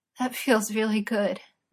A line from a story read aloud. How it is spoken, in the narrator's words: Merlin gasped